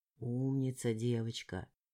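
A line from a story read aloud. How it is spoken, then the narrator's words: Man's confidential whisper. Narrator (Russian): доверительным шепотом проговорил сидящий напротив меня мужчина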